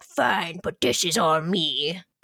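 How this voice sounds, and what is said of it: Growly imitation of a character's voice. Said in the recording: “a really good Mark Hoffman impression ... the best I could do at Growly Man”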